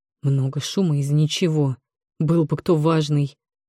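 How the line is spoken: Grumbling. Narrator (Russian): проворчал опекун

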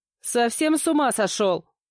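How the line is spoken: Shouted after someone. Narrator (Russian): крикнула я вслед

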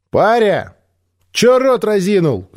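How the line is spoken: Shout. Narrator (Russian): крикнула Эви

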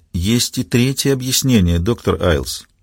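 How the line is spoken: Quiet. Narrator (Russian): тихо произнесла

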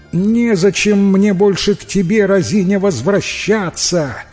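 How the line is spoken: Girl shouting back. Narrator (Russian): крикнула в ответ девушка

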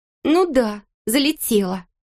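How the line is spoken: Snapping back. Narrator (Russian): огрызнулась она

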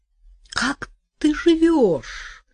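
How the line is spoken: Sudden contemptuous high exclamation. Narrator (Russian): вдруг презрительно, высоким голосом воскликнула

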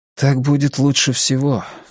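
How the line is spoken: Sighed. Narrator (Russian): вздохнул Кориолан

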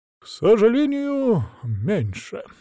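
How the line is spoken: Feigned sigh. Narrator (Russian): делано вздохнул Василек им в спину

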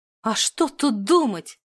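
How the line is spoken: Exclaim. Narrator (Russian): воскликнула

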